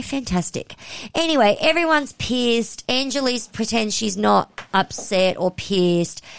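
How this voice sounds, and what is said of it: Usual voice. Nothing is said of it.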